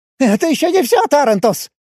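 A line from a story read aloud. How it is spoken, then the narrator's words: Hysterical shriek. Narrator (Russian): Истерично взвизгнул помощник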